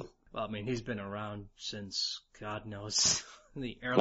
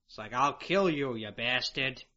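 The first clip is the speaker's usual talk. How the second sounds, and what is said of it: New York Brooklyn accent, Billy West's Rocket. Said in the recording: “Billy was doing like a real New York thing ... It was a New York / Brooklyn accent”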